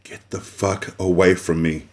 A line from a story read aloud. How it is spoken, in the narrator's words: she whispered as her eyes widened in shock